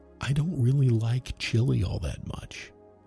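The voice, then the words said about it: Speaks quietly, softly. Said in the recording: “say this quietly ... I'm gonna say it softly, so listen closely”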